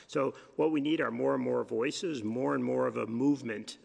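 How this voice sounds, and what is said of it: Hoarse voice. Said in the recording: “we're all getting kind of hoarse,”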